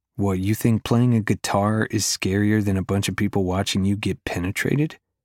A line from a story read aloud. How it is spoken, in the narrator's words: She laughs